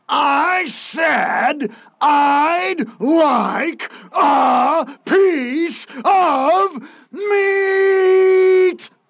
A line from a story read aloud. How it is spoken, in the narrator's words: roared Mr